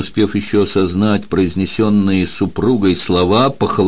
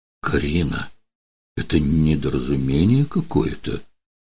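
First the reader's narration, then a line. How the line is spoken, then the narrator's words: Weak helpless mumble. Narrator (Russian): Не в силах повернуть голову, он смог лишь пробормотать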